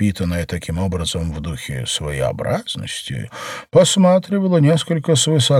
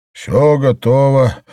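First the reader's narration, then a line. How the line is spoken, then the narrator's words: Gloomy. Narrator (Russian): мрачно сказал Пантен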